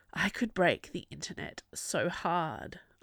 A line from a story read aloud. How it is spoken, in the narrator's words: I breathed